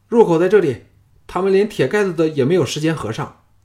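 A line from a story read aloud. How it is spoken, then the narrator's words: Joyful shout. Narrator (Chinese): 有人喜叫道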